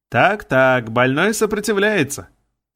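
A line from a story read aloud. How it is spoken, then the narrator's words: Smiling shout. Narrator (Russian): улыбнулся профессор и крикнул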